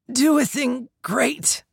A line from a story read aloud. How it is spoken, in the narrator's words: I wheezed